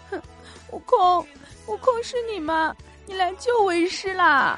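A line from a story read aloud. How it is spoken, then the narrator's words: Tearful voice. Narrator (Chinese): 带着哭腔说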